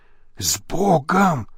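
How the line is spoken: Whispered. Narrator (Russian): шепнул ему вслед Лабрюйер

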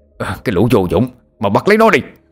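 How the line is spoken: Angry shout. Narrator (Vietnamese): Lão Ngạn giận dữ hét lên

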